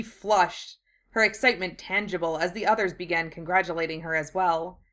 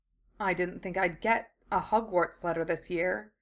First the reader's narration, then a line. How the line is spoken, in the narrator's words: Draco murmured